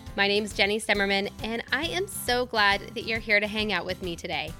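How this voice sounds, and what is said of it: Weakened, slightly hoarse voice. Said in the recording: “my voice sounds a little bit different. I'm still recovering from a cold, and this morning, to be honest, I barely had a voice ... although my voice is not back 100%”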